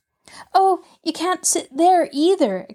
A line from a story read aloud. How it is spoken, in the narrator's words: exclaimed Mabel